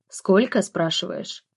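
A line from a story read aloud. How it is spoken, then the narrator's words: Smirking. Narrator (Russian): хмыкнул он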